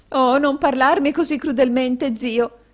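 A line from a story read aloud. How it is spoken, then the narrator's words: Sobbing. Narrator (Italian): singhiozzò la signora Kenwigs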